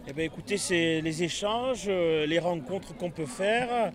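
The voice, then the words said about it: Singsong regional French accent. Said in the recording (French): “Vous avez l'accent chantant.”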